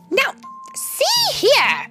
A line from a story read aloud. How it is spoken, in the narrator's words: she shouted haughtily